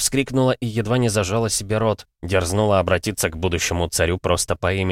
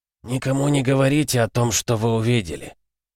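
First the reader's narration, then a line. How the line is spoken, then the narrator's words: Hoarse whisper. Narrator (Russian): хрипло зашептал он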